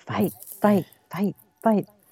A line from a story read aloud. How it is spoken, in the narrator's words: saying quietly, chanting